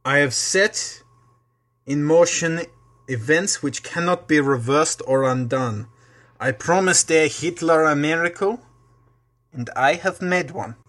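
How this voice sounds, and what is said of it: Deliberately bad Russian-ish Rasputin voice. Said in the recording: “I was just trying to do a really horrible accent again ... I don't know if that was Russian or not”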